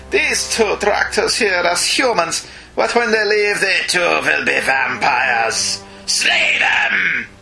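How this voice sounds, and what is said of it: Dracula-style accent, sounding a bit German. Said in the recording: “Should I do a Dracula accent? ... It wasn't very Christopher Lee, was it? ... You're a bit German, actually.”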